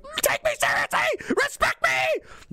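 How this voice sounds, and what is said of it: Screamed mocking impression. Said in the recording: “screaming at you ... doing an impression”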